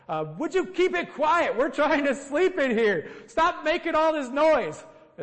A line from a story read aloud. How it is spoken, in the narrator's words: he shouts out there